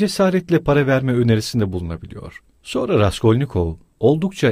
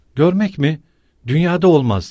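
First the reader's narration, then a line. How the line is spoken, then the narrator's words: Shouted. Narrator (Turkish): diye bağırdı Pulheria Alexandrovna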